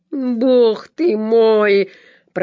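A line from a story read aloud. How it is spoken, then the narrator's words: Growl. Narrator (Russian): прорычал хирург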